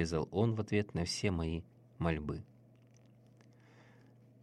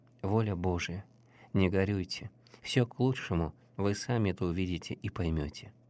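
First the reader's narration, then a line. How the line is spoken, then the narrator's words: Gentle, old man. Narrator (Russian): ласково сказал мне старец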